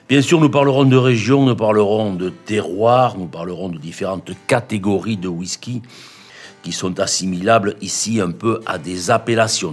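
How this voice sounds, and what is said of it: Southwestern French Chalosse accent. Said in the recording (French): “mon accent des contrées profondes, non pas des Highlands, mais de la Chalosse”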